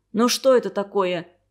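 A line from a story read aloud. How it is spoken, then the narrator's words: Grumbling mother. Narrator (Russian): ворчала мать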